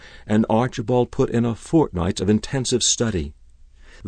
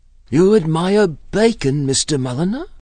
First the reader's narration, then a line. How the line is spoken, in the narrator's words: she asked eagerly